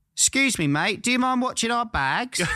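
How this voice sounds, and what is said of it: Put-on Cockney accent. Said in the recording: “she had that accent ... What's that accent? Cockney.”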